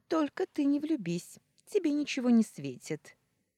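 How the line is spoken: Cheerful remark. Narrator (Russian): весело заметила Валерия

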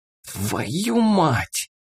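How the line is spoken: Hiss. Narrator (Russian): прошипел Рыжий

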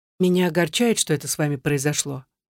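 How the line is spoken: Plain. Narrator (Russian): сказал Чарли

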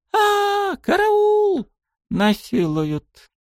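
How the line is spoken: Panicked scream. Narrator (Russian): закричала она

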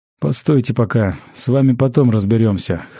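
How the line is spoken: Snorted. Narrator (Russian): хмыкнул тот, кого убийцы назвали учителем

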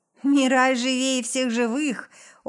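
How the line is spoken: Laughing. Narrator (Russian): начинает смеяться

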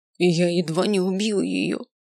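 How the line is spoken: Moaning. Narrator (Russian): простонал маг

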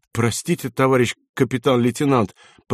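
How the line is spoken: Muttered. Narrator (Russian): пробормотал одессит

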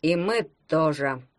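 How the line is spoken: Remarked under breath. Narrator (Russian): вполголоса заметил Ванька Валялкин

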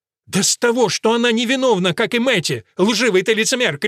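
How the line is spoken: Shout. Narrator (Russian): крикнул Мерфин

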